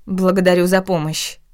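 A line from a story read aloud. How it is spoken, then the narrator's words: Irritated. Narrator (Russian): раздраженно произнесла я, удивляясь негативным эмоциям, которые вызвал мужчина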